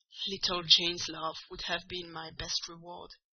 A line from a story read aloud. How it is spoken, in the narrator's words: he answered